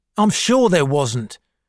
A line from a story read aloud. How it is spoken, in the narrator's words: shouted Lemus, now very angry